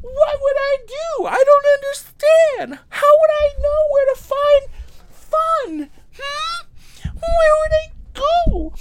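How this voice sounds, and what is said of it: Imitates a cartoon character's voice. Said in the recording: “my impression of Dora the Explorer”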